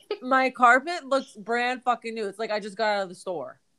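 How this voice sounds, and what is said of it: Excited, flustered fast talking. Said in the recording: “I'm getting so flustered, I'm like stuttering on my words ... You sound so excited.”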